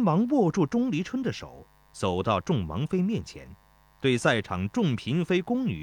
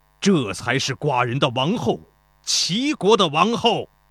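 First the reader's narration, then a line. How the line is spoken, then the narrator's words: Loud praise. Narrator (Chinese): 齐宣王高声赞道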